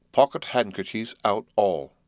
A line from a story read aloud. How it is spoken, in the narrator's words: cried Mr